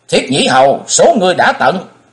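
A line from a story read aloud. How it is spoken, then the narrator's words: Thunderous furious roar. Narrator (Vietnamese): Thái Hùng cắn chặt đôi môi đến bật máu, gầm vang dội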